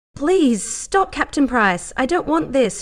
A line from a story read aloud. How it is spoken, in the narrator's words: cried out, her voice slightly muffled by the sheets